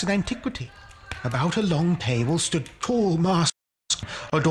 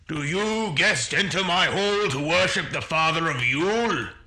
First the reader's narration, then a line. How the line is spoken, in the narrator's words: he boomed